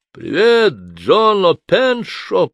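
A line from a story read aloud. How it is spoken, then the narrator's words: Booming. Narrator (Russian): прогремел Ронни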